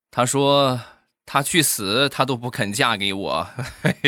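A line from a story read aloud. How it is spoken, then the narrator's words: Long weary sigh. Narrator (Chinese): 他长叹一口气说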